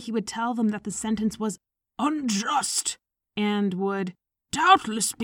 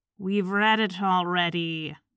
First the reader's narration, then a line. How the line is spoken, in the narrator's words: Yakub Ivanovich would remark dryly